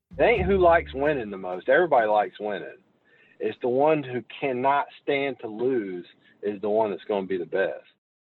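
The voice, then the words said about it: Southern American accent. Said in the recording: “as you can tell from the accent, hailed from the South”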